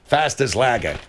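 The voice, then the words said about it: Put-on Australian accent. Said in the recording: “You do an Australian accent. ... Yeah, that's perfect.”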